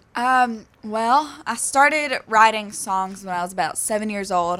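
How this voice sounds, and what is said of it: Southern US accent. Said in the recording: “I was born in North Carolina, and that's where the accent comes from.”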